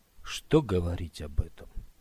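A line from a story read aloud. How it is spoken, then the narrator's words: Quiet. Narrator (Russian): тихо промолвил Скотт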